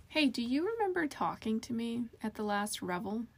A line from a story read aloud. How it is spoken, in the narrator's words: she asked him